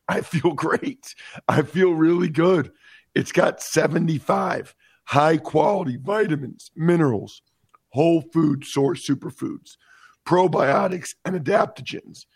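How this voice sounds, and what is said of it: Hoarse, strained voice. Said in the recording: “I lost my voice,”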